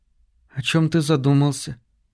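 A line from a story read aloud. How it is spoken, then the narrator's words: Quiet question. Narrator (Russian): тихо спросила Кейт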